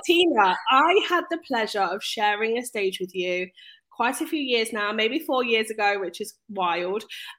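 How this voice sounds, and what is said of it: Gruff voice from a cold. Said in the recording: “excuse my voice, guys. I am a little bit gruff at the moment. I do have a cold.”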